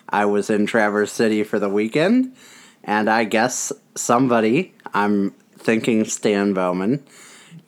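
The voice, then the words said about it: Sick voice, sounds weird. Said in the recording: “I am sick ... gave me a cold. And so if I sound weird”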